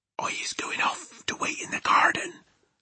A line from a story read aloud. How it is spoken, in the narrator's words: the BFG whispered